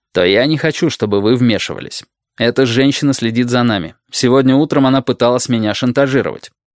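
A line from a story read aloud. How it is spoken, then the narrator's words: Sharp, harsh declaration. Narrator (Russian): заявил Мейсон резким тоном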